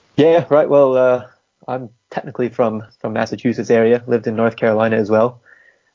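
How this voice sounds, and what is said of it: Distinctive accent. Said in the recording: “you have quite an interesting accent”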